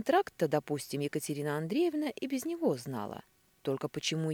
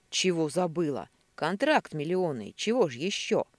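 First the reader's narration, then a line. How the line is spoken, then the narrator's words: Sharp angry bark. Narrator (Russian): рявкнул Годецкий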